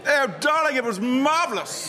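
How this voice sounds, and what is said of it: Theatrical, affected posh accent. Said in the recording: “went a bit theatrical in London ... What's happened to your accent? ... talking like that”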